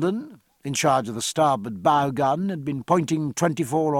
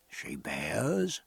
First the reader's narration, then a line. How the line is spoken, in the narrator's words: murmured Bonden